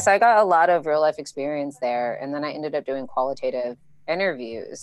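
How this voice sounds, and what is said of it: American accent. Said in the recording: “you have American accent.”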